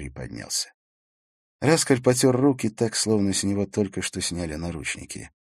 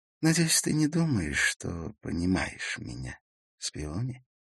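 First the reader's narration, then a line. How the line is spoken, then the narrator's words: Quiet voice. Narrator (Russian): сказал он тихим голосом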